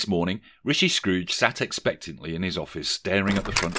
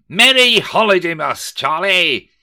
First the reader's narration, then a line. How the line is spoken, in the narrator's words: breaking into a rather insidious smile, Rishi Scrooge bellowed